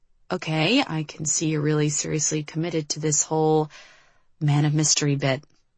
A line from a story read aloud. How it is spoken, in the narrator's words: Liv said, her voice low